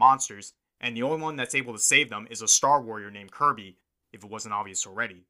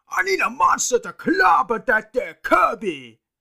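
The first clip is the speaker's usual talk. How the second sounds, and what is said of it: Bad impression of a cartoon character. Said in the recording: “I apologize for a terrible impression.”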